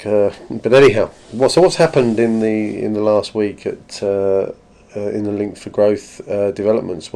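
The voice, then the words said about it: Voice affected by a cold. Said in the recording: “As you can probably tell from my voice, I've picked up a cold this week”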